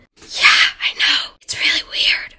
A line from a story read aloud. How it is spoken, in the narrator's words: whispered Anika